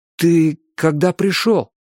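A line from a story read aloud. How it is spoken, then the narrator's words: Strained, forced out. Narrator (Russian): выдавил я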